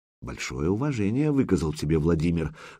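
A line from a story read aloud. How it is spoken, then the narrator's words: Whisper. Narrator (Russian): шепнул Духарев византийцу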